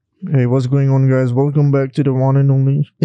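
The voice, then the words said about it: Put-on sexy, nasal voice. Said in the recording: “sexy voice... a bit sengau. Too nosy... nosy”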